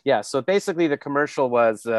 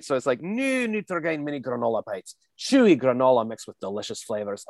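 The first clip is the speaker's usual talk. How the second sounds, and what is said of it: Put-on Scottish accent. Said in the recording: “I was just like, I'm just doing Mike Myers as Scottish ... I want to hear the Scottish accent now”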